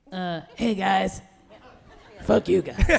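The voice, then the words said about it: Beetlejuice character voice. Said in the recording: “I want to hear your best Beetlejuice voice now. ... You do the voice now.”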